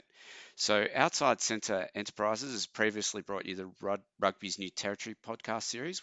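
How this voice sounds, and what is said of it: Australian accent. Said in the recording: “based out of Melbourne, Australia, which explains the accent.”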